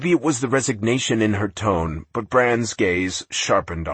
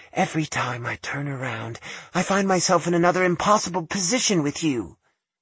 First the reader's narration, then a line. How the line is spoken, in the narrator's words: admitted softly